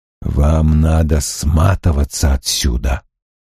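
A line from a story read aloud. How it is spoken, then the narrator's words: Whisper. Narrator (Russian): прошептал он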